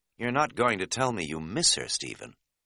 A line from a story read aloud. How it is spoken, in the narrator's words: I said dryly